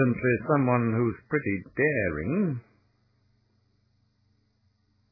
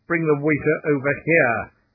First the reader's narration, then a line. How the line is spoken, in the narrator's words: snapped Blake crisply